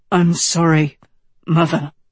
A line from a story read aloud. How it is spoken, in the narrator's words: Tedros rasped, trying to quell his emotion